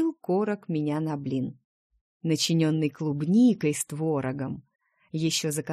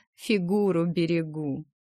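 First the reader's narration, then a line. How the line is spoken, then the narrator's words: Laughing. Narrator (Russian): я рассмеялась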